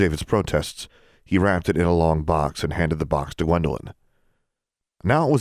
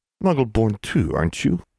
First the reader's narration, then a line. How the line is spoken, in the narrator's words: he grumbled